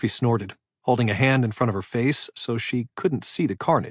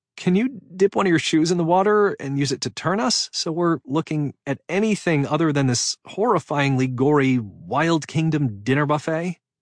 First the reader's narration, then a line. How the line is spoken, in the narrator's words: Giggling, she said